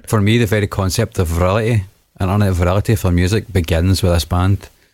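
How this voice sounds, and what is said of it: Strong regional accent. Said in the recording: “got a deep accent ... It sounded like he said virility, but he actually said virality”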